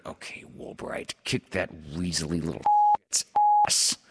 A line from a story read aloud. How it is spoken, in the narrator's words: Snead, not realizing that his mic is live, leans to his left and whispers to a neighbor